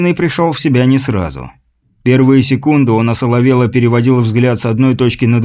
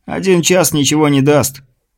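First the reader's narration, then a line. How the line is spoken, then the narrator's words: Snorted reply. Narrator (Russian): Его собеседник хмыкнул в ответ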